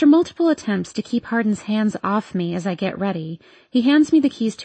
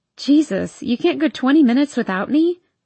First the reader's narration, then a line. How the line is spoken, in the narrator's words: I laugh into the phone